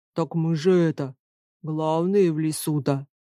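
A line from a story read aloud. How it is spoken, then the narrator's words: Deep male bass. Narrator (Russian): пробасил один из мужских голосов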